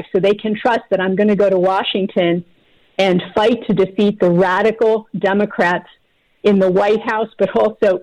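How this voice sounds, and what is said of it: Pennsylvania accent. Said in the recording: “I can hear your accent. ... I can hear your Pennsylvania accent.”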